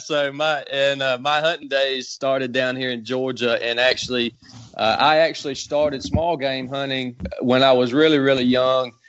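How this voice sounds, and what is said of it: Southern American accent. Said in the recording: “you could hear it in your voice. You got to be from the South, right?”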